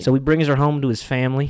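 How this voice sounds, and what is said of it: Poor put-on Southern US accent. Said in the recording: “I'm going to say the rest of this in a southern accent ... That was awful.”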